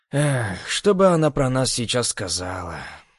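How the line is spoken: Sad wry chuckle. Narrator (Russian): Грустно усмехнулся

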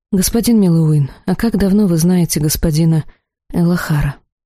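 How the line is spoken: Suspicious, with a snort. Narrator (Russian): мастер хмыкнул и как-то подозрительно произнес

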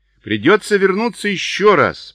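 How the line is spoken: Shouted over roaring wind. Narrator (Russian): прокричал Чарли сквозь рев ветра

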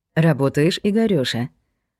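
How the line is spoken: Barely audible purr. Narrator (Russian): Промурлыкала едва слышно

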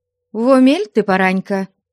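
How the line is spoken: Stern mother. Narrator (Russian): строго ответила мать

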